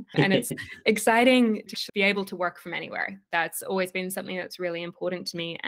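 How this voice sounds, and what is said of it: Australian accent. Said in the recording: “I'm currently in Sydney, Australia, for anybody who can hear my accent.”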